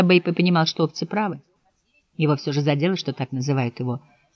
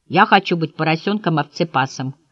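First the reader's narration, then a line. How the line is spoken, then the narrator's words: Plain. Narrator (Russian): ответил он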